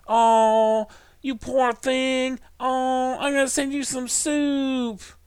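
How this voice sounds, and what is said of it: Put-on southern or Hispanic accent. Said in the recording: “Aziz in the studio ... I tried to have a southern accent at the end. I was picturing more like a. I don't know, Hispanic maybe”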